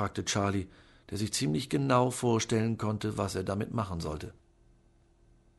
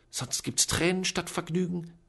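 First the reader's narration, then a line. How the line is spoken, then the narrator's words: Aunt hissing. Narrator (German): zischte Tante Eustacia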